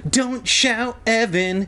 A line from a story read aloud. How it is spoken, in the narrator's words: he whined as if it were an 80s song